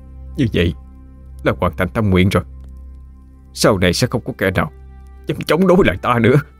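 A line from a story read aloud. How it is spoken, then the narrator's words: Muttered. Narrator (Vietnamese): Miệng hắn lẩm bẩm nói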